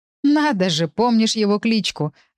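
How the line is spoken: Laughing. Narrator (Russian): рассмеялся Саня

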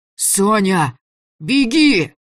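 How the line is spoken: Yelled with last strength. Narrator (Russian): Из последних сил заорал Митяй

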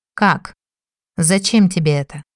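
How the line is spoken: Calm, puzzled question. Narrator (Russian): спокойно уточнил он, не совсем понимая

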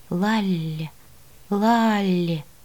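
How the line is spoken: Cold yet tender. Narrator (Russian): Так холодно и нежно, говорит лорд

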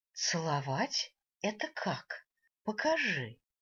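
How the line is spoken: Demanding. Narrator (Russian): потребовала я

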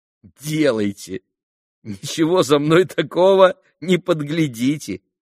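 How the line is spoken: Laughing. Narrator (Russian): засмеялся Алеша

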